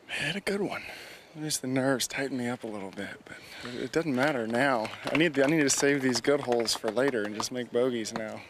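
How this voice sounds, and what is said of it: Slight Tennessee accent. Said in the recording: “still has a little Tennessee accent going”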